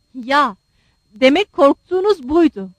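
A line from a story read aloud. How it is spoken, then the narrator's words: Crying out. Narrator (Turkish): diye haykırdı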